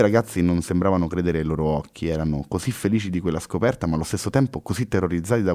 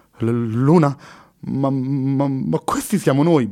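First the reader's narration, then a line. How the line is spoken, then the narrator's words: Stammering in shock. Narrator (Italian): balbettò sbiancando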